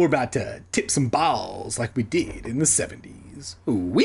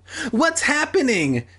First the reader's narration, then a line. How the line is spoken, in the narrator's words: Sheena cried, black people sitcom style